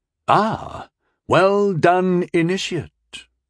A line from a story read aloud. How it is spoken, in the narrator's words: he said warmly